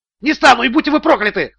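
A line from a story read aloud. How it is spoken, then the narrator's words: Yelled back. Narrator (Russian): завопил в ответ Стоун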